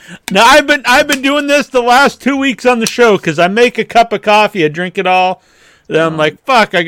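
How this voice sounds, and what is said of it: Usual voice. Nothing is said of it.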